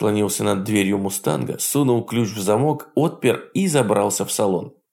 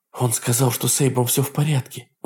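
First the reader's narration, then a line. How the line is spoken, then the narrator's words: Breathless, from behind. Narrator (Russian): выдохнула подошедшая сзади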